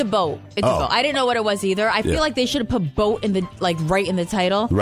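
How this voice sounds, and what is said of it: Usual voice. Nothing is said of it.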